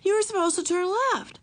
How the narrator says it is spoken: cried Bezos

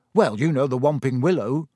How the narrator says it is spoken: said Ron

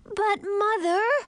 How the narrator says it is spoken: Millie wailed

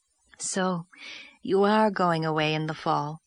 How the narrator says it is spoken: said Miss Lavender wistfully

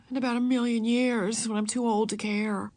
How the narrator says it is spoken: said Beezus gloomily

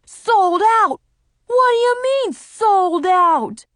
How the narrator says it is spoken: the guy with the bulldog yelled

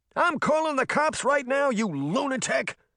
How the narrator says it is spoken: shouted back

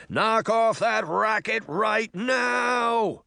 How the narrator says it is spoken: the voice shouted angrily

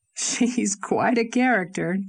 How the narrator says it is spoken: chuckled Dr

